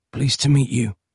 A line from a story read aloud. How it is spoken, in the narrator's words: croaked Peter